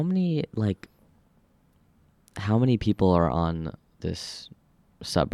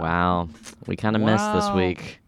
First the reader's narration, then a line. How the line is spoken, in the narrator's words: we'd just be laughing because we'd be like